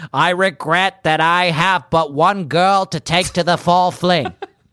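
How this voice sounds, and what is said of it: Nasal imitation of another person's voice. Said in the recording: “Nasalier ... I think I just vocal coached you into like a not bad like Kennedy accent ... I feel good about my Kennedy impression”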